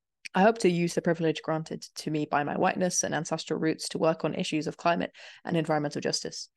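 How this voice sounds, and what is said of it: British accent. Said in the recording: “I am a white, British, born and raised settler, as you can tell by my accent”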